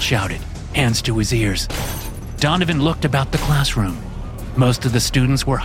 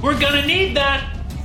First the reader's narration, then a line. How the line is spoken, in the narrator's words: Max yelled